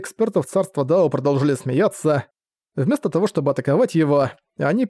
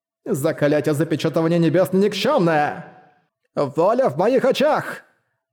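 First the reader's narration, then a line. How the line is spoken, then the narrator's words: Roar. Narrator (Russian): Взревел благородный Жань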